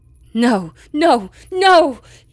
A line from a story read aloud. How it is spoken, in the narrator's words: cried, a frantic animal caught in the hunter's trap